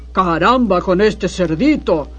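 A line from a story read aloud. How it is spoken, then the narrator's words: Hungry wolf growling. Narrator (Spanish): gruñó el hambriento lobo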